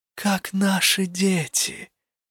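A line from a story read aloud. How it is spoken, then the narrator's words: Soft smiling old man. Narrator (Russian): мягко улыбнулся в ответ старый Вуотон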